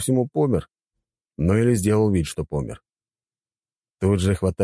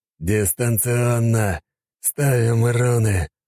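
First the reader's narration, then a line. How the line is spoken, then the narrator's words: Strained, forced out. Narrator (Russian): выдавил я из себя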